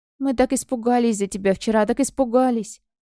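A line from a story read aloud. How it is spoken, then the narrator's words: Sorrowful sigh. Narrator (Russian): Моя кошечка вздохнула так скорбно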